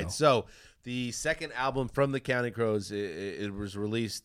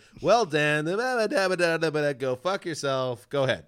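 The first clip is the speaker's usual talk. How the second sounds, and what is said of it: Imitates another person's voice. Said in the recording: “That's a good impression of me.”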